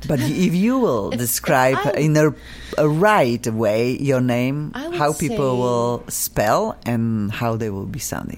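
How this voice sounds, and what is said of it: Noticeable non-native accent. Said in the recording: “my funky accent ... your beautiful accent”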